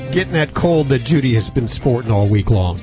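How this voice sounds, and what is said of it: Hoarse voice from a cold. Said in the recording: “Losing my voice.”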